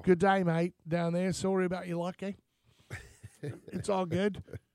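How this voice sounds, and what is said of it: Bad put-on Australian accent. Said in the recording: “they hate when Americans try to do an Australian accent... No, you're terrible... Really bad.”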